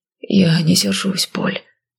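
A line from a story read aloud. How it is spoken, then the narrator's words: Sudden breathed words. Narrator (Russian): вдруг выдохнул он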